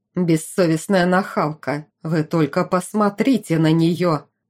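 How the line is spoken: Growling. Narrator (Russian): рычала Делия Менроуд

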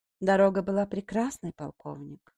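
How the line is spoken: Calm. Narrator (Russian): ответила она спокойно

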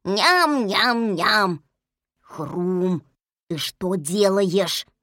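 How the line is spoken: Hissing. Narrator (Russian): зашипел Ум

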